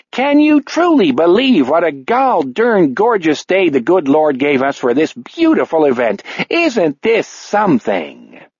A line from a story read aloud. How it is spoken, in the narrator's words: bellows